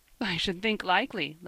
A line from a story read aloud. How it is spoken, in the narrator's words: laughed Ben